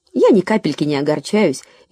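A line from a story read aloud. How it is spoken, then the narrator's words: Cheerful reply. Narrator (Russian): весело отозвалась Лора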